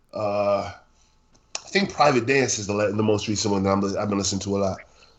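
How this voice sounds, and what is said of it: Stuffy, congested sick voice. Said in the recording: “Forgive my voice, y'all. I'm sick. ... I'm stuffy. Like I'm congested as hell.”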